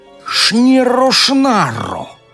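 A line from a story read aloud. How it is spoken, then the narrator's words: Furious witch's hiss. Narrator (Russian): разъяренно прошипела ведьма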